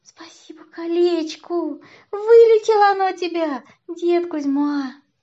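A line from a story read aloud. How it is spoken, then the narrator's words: Laughing speech. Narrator (Russian): Варюша засмеялась, сказала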